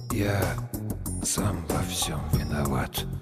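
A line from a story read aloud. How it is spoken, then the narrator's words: Barely audible. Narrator (Russian): Ледош сказал едва слышно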